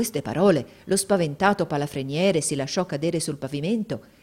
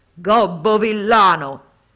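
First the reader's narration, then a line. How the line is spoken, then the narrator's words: Thundering buffalo shout. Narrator (Italian): il genio si cangiò in un possente bufalo e sotto cotesta forma gli gridò con voce tuonante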